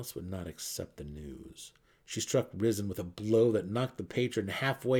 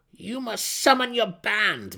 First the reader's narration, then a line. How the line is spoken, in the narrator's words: Malice cried, the mercenary